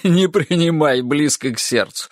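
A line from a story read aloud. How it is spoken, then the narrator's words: After laughing. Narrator (Russian): сказал он, отсмеявшись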